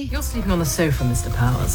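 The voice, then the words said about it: Posh English accent. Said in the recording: “I don't mind just the straight British accent ... So a posh English accent ... uppity posh sort of English accent”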